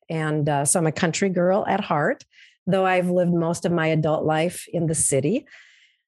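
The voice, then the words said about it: Minnesota accent. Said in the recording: “I'm from Minnesota, which probably everyone who's not from Minnesota has already, you know, identified my accent”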